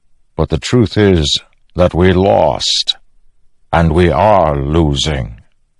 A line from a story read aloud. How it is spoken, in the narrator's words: the Stormfather rumbled